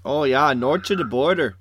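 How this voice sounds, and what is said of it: Exaggerated Minnesota accent. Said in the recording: “That is your normal accent, dude. I don't know why you're trying to, like, over-accentuate it for the fans. ... from Minnesota.”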